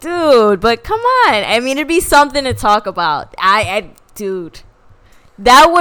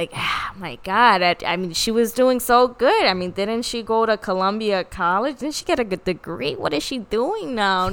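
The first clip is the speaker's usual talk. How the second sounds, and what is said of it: Old New York lady accent. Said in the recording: “old New Yorkin ladies? Why do you have that accent? ... old Jewish ladies from New York”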